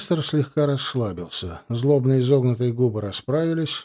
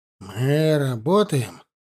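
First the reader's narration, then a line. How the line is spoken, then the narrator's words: Mumbled. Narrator (Russian): промямлил Лейбор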